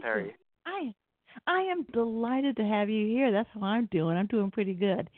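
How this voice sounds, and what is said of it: Southern US Georgia accent. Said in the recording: “if you can't tell by my accent, I'm in Atlanta, Georgia.”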